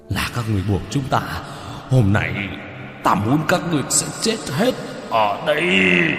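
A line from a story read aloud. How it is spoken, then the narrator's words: Furious demonic roaring. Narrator (Vietnamese): Hai con quỷ kia vô cùng giận dữ gầm thét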